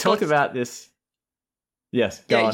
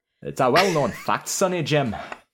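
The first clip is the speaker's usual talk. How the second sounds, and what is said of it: Put-on Scottish accent. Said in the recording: “my go-to to get the accent prepared on my tongue ... Scottish”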